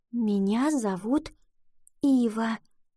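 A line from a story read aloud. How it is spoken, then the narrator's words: Whisper. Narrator (Russian): прошептала она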